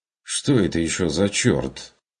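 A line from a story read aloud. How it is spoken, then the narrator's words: Bewildered, muttered remark. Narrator (Russian): растерянно проронил Карл Штефан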